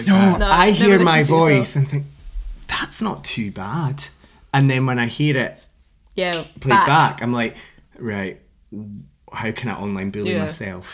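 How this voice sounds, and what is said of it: Scottish accent. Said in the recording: “I'm Scottish”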